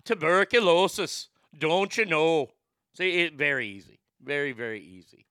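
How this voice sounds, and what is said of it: Put-on Irish accent. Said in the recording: “you've got your Irish accent”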